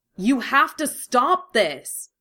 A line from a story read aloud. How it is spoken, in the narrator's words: Carol shouted again